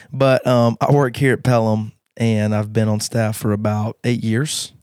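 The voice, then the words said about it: Hoarse, strained voice. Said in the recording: “I lost my voice this week, so I'm going to sound amazing this whole time... It's probably just my voice.”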